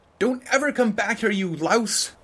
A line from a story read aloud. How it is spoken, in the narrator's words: she opened the window and shouted at me